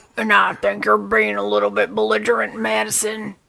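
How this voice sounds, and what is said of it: Gruff imitated voice, poor impersonation. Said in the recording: “Our impersonation is terrible, but it is at least gruff enough.”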